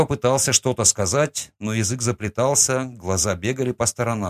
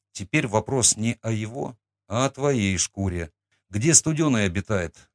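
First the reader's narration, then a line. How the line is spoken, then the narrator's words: Plain. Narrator (Russian): спросил я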